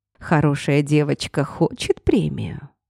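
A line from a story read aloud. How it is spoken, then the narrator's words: Purring male voice. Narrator (Russian): мурлыкал мужской голос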